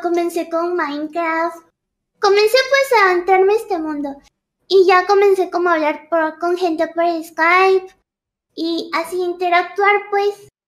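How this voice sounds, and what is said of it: Pretty voice like a little girl's. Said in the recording (Spanish): “qué voz tan bonita ... tenía la voz de niña chiquita ... era inusual esta voz”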